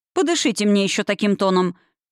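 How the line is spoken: Stern bark. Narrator (Russian): рявкнула я для поддержания дисциплины

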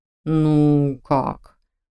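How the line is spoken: Drawn out. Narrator (Russian): протянул он

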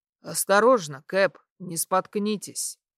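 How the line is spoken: Deep bass voice. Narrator (Russian): пробасил

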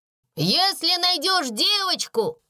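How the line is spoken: Shouting. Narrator (Russian): крикнул Гюй Кларенс

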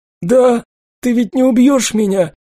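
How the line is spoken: Tearful sobbing. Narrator (Russian): она всхлипнула сильнее, а из глаз потекли слезы

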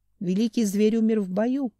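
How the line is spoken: Plain. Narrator (Russian): ответил Танлель

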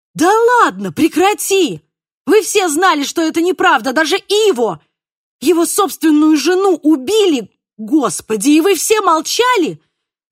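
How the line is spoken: Shouted. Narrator (Russian): закричала я

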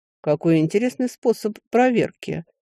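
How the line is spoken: Amused grunt. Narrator (Russian): хмыкнул мужчина

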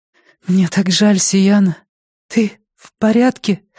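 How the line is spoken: Trembling voice. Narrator (Russian): спросила дрогнувшим голосом

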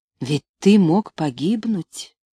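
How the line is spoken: Barely audible. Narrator (Russian): еле слышно произнесла девушка

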